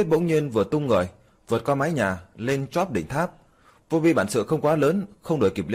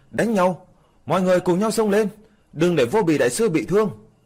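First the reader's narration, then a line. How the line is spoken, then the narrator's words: Crowd shouting loudly. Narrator (Vietnamese): Đám người bên dưới hét lớn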